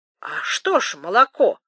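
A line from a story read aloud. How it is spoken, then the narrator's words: Exclamation. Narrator (Russian): отвлекая его, воскликнул Темляков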